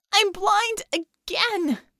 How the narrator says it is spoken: Scope wailed

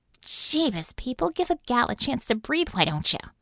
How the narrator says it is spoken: She muttered

